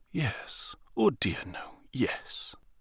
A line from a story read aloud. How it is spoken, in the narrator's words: whispered